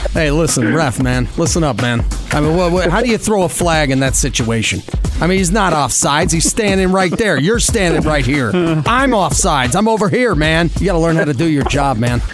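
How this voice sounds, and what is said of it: Imitates a football coach's voice. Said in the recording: “he is really well known for being really good at voice impressions ... his best Coach Gru impersonation ... Oh, that's impressive.”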